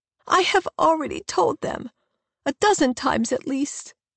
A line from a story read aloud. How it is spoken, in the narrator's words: she cries